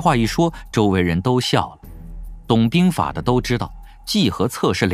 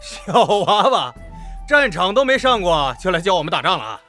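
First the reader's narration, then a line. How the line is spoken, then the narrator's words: Laughing. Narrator (Chinese): 那周鹏当即就笑道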